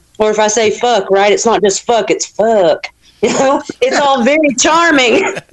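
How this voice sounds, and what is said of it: Southern US accent. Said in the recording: “not the only Southerner in the conversation ... Are you making fun of my accent? ... "love" sounds like it's three U's”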